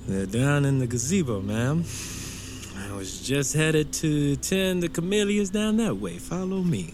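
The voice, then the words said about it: Southern US accent. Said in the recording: “You from down south, boy? I detect an accent. Cane River? ... You sound just like home.”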